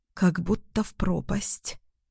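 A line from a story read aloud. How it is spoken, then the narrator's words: Convulsive whisper. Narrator (Russian): признаюсь судорожным шепотом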